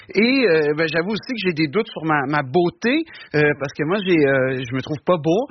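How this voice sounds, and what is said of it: Québécois French accent. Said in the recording (French): “j'ai un accent ... j'espère que votre accent ne vous handicapera pas trop en France ... l'accent québécois”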